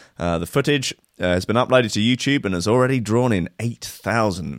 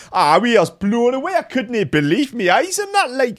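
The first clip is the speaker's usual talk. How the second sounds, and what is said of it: Put-on comic regional accent. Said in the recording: “Oh, sorry, I didn't do the accent.”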